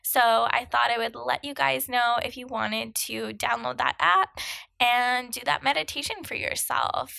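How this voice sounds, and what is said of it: Froggy, hoarse voice. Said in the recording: “my outrageous sounding froggy voice”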